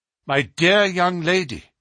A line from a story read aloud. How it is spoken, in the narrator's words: cried Holmes earnestly